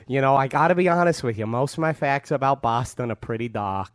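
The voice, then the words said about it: Improvised put-on Boston accent. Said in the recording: “This is the Boston accent of a man who decided to do it moments before.”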